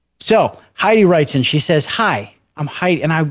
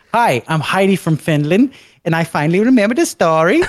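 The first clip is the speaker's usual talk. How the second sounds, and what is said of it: Attempted Finnish accent. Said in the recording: “I don't know what a Finland accent sounds like, but I'm sure if I tried it, it would be terrible ... Now it's going towards Switzerland.”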